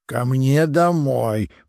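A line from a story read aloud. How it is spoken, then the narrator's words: Grumbled. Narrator (Russian): проворчал Камиль и снова уснул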